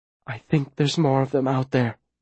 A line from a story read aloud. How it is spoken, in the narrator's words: Viola whispers down near my ear